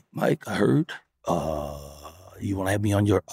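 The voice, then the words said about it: Impression of Barack Obama. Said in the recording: “I don't even do impersonations. That was terrible.”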